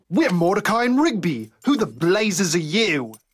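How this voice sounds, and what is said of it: British accent, future Mordecai voice. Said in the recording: “future Mordecai, who has a British accent”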